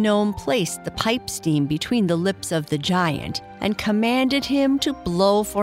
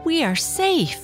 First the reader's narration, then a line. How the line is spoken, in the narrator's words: the gnome cried out excitedly